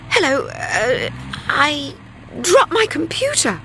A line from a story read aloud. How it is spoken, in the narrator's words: stammered Linda